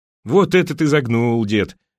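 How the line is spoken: Laughing. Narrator (Russian): рассмеялся парень

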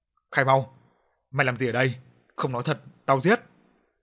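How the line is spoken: Harsh growl. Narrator (Vietnamese): Nó gằn giọng

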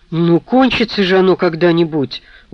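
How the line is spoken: Dejected question. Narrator (Russian): упавшим голосом спросила Анжелика

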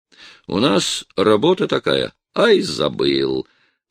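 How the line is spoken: Mocking, sarcastic tone. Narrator (Russian): все тем же ерническим тоном сказал я

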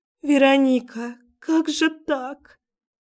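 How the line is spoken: Crying, almost sobbing. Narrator (Russian): Она долго плачет, почти рыдает

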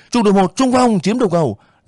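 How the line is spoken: Ringing commanding shout. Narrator (Vietnamese): Đại đội trưởng Giáp ... thét vang

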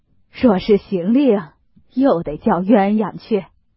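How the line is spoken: Laughing. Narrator (Chinese): 贾母笑道

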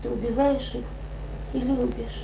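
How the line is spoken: Sudden quiet, sad, pensive. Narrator (Russian): женщина неожиданно тихо и грустно сказала, словно раздумывая

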